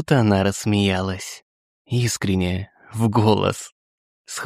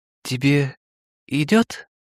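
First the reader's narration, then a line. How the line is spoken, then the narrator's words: Uncertain. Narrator (Russian): произнес я неуверенно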